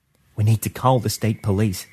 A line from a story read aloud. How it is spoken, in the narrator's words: said softly